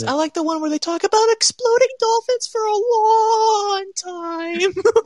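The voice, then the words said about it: Cartoon character voice. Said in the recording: “You did a Carl Weezer voice.”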